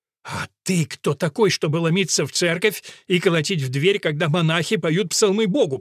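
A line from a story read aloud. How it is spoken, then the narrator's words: Through gritted teeth, prior. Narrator (Russian): процедил приор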